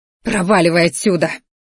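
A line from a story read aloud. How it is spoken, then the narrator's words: Snarled. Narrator (Russian): рыкнула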